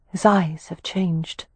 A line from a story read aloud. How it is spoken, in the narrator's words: Wynne murmured